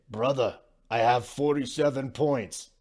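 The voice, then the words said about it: Bad imitation of another person's accent. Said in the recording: “that's a horrible Jokic accent”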